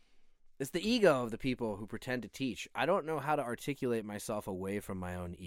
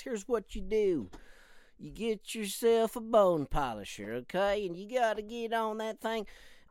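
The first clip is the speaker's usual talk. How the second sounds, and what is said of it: Put-on weird southern accent. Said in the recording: “I've just picked a weird southern accent”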